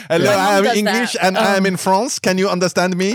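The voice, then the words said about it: English with mock French accent. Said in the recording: “instead of speaking the language of the country, you just speak English in the accent of the country”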